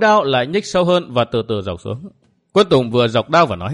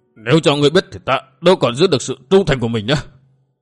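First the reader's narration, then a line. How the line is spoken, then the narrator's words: Stammering. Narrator (Vietnamese): y lắp bắp nói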